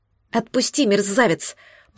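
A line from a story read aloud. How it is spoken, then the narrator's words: Hissed. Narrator (Russian): прошипела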